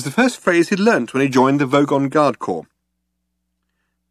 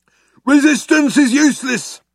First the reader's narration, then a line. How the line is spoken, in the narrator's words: shouted the Vogon guard back at him